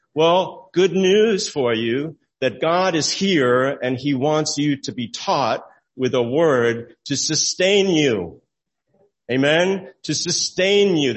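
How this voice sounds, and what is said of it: Raised, loud preaching voice. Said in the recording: “raising my voice”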